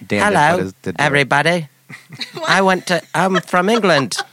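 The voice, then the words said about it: Put-on British accent. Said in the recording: “she had this British accent, but then her mom called her on the phone, and then she, like, put her hand over her mouth and then did her normal voice.”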